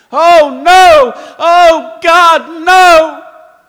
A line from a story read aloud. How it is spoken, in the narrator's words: all you could hear was my husband screaming